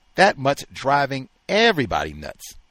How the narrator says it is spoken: said

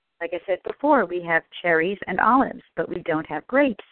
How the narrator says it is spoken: says the bartender

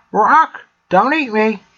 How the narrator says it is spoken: it exclaimed

